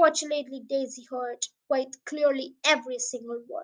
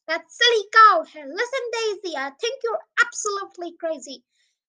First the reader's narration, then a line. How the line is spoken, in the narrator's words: His fellow standing in the crowd raised up his voice and yelled aloud